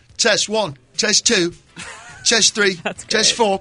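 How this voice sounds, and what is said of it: Put-on English accent. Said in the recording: “I always sound check with an English accent.”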